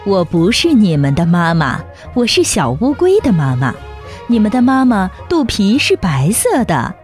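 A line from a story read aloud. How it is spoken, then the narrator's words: Laughing. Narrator (Chinese): 大乌龟笑着说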